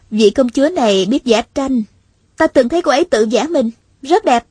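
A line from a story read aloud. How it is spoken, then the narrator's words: Smiling reply. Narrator (Vietnamese): Hạ Thiết Thủ mỉm cười đáp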